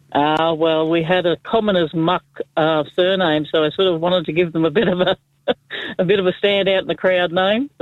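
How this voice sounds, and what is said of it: Strong Australian accent. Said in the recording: “such a rich Aussie accent”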